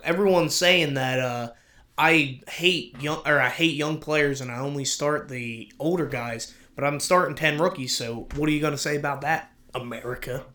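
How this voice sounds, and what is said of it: Put-on Southern American accent. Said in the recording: “I kind of went like a Southern ... accent.”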